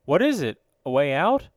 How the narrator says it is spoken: asked Lieutenant Marbury anxiously

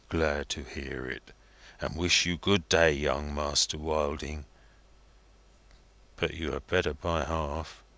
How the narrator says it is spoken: muttered inaudibly

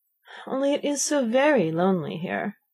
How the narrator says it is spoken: Alice said in a melancholy voice, and at the thought of her loneliness two large tears came rolling down her cheeks

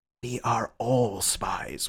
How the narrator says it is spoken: whispered Syme

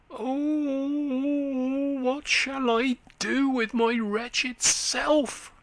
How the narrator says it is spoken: he groaned

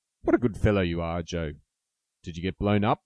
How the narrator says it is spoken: he added, laughing

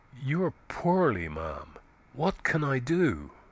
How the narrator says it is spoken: said tenderly

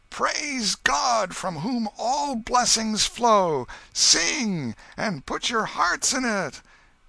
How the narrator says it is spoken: Suddenly the minister shouted at the top of his voice

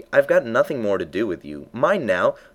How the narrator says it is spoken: the poor little thing sobbed again, or grunted, it was impossible to say which

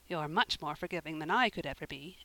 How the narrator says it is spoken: Anne said, rather crossly

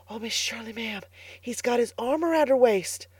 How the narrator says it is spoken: whispered Carlotta the Fourth delightedly

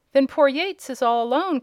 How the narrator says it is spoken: cried Tom

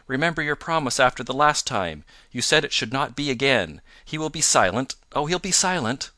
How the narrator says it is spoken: she cried in English

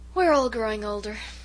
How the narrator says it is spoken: sighed Miss Cornelia

